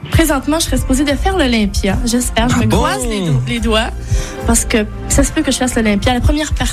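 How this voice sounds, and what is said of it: Speaks with a noticeable accent. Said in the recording (French): “vous la taquiniez sur son accent”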